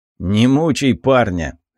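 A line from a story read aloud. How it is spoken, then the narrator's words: Scoffing snort. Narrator (Russian): хмыкнул Бернард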